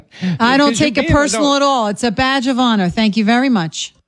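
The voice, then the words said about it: Very thick New York accent. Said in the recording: “her accent is wonderful ... 10 being a very thick New York accent ... I'm going to give her a 10”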